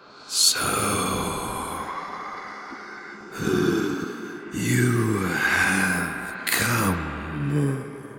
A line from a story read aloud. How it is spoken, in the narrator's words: the thing croaked, his voice hoarse after who knows how long of silence